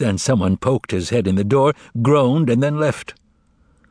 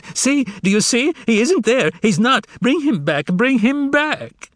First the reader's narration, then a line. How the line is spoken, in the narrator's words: The beautiful secretary let out a shriek, wrung her hands and screamed